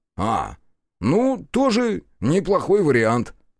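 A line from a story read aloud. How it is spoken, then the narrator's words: Snort. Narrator (Russian): хмыкнул Бучил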